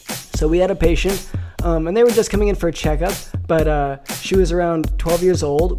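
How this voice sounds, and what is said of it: Slightly off, allergy-affected voice. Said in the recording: “my voice is a little off. I have some allergies”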